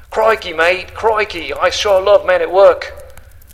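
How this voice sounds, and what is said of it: Put-on Australian accent. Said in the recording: “my best attempt at an Australian accent.”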